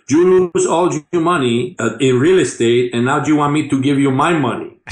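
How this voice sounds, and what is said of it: Heavy Spanish accent impression. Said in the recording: “In my first Cuban, so you have a heavy Spanish accent.”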